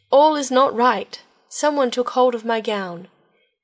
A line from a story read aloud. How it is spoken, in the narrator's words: she cried out to her sisters